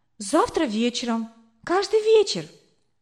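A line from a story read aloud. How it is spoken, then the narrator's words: Excited answer. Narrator (Russian): взволнованно ответила я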